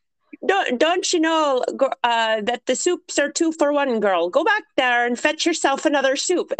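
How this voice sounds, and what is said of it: Put-on Irish accent. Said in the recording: “This is my Irish accent.”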